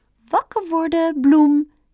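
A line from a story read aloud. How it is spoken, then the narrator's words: Calling out. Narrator (Dutch): riep Bambi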